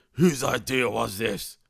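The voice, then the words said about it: Poor impression of Roman Reigns. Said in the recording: “Good impersonation. ... Not really. That was pretty bad.”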